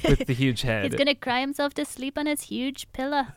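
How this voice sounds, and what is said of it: Scottish accent. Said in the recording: “Excellent Scottish accent there. You just threw that in.”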